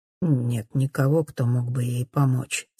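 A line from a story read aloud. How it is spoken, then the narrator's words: Quiet answer. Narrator (Russian): тихо отвечает Винсент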